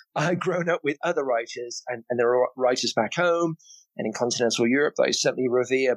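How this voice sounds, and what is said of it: British accent. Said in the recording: “coming from the UK, listeners, you may have noticed I have an accent.”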